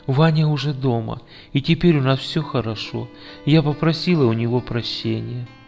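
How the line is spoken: Whisper. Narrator (Russian): она шепнула

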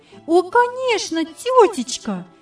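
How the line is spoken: Admiring exclamation. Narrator (Russian): воскликнула восхищенно Яна

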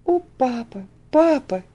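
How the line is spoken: Sobbing. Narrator (Russian): всхлипывала она

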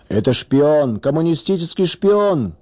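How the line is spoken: Furious crowd shouting. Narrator (Russian): кричали некоторые яростные защитники православия

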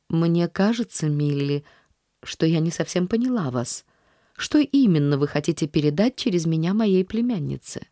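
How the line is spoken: Calm statement. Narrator (Russian): спокойно заявив

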